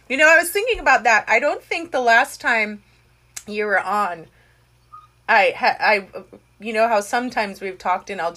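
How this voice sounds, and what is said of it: American accent. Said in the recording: “my American accent?”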